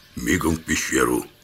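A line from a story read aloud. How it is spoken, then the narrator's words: Quiet command. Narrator (Russian): тихо скомандовал я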